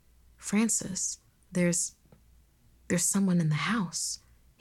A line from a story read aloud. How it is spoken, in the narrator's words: he whispered